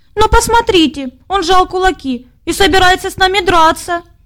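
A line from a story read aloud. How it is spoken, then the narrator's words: Shouting, small voice. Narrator (Russian): закричал зайчик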